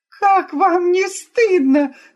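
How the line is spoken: Sudden shout. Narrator (Russian): закричала вдруг Тереза

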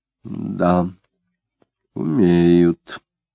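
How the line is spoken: Slow and thoughtful. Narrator (Russian): медленно и задумчиво сказала Марина

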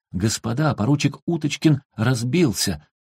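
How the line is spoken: Shouted. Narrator (Russian): актер прокричал

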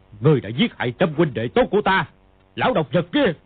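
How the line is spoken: Angry shout. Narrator (Vietnamese): Tiếng quát, Kha Trấn Ác

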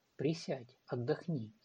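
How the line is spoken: Woman's soft voice. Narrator (Russian): сказала женщина мягко

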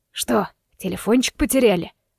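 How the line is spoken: Hoarse mocking male voice. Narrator (Russian): донесся хриплый мужской голос с усмешкой, по всей вероятности принадлежавший мошеннику-рецидивисту

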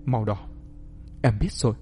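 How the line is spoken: Young woman's soft whisper. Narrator (Vietnamese): Người con gái đó khẽ nói vào tai anh

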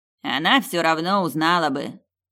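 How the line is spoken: Guilty grumble from behind. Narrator (Russian): виновато пробурчал Бонсайми за моей спиной

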